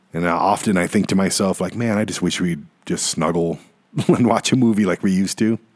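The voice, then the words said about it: Voice cracking with emotion. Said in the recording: “my voice cracking a little bit”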